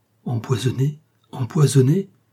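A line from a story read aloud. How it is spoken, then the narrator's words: Exclaimed. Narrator (French): Homais, qui s'exclama sur la place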